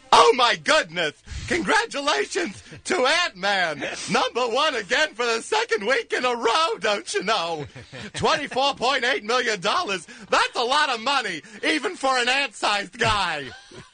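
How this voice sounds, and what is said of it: Ed Wynn impression. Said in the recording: “in your best Ed Wynn voice”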